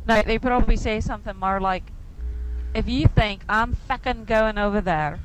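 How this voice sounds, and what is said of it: Irish accent. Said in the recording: “you are Irish, for Christ's sakes... you have the accent, because that's where you're from”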